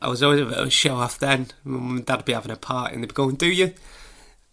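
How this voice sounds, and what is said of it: Usual voice. Nothing is said of it.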